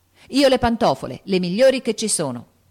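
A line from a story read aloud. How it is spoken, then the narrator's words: Shouted. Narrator (Italian): gridò Joe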